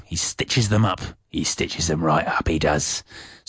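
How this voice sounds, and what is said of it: Cockney-ish London accent. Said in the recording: “I'm slipping slightly into a Cockney-ish London accent”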